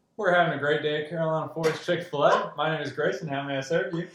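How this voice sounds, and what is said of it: Southern twang, drive-thru greeting. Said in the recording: “I caught a little bit of a twang there ... the accent got heavier ... that Southern hospitality”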